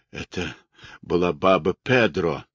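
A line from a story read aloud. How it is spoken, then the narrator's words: Eager-to-please mutter. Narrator (Russian): бормотал Дэнни, стараясь изо всех сил ему угодить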